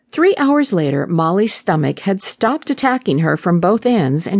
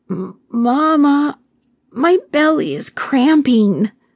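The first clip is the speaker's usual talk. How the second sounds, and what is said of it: Weak, feeble voice. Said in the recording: “in a weak voice”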